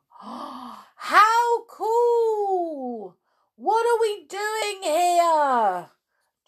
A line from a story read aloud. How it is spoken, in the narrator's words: shouted Jack